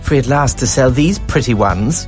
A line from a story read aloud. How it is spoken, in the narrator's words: Delmisa sneers